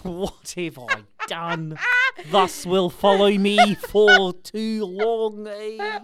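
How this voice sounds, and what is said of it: Good put-on New Zealand accent. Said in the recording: “God, you do a good Kiwi accent.”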